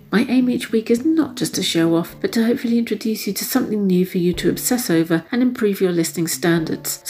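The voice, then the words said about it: Raspy, telephone-quality voice. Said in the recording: “using my raspy telephone voice”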